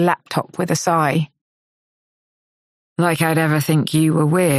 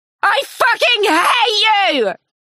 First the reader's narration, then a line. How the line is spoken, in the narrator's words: She screams